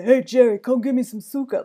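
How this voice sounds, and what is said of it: Put-on Italian American accent. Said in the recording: “the weirdest thing about Italian Americans is that like no matter where in the country you live, they all had the same accent ... that is how my grandmother talked”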